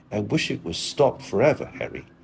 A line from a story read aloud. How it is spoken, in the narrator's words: he answered bitterly